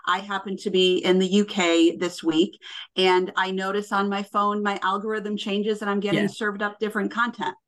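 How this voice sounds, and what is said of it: American accent. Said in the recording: “as you can tell from my accent, I am clearly American”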